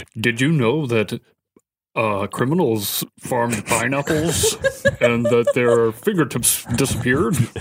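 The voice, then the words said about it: Impression sounding like Mr. Rogers character. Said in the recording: “Could you do an impersonation of each other? ... Sound like a Mr. Rogers character. ... Like some guy in Playland.”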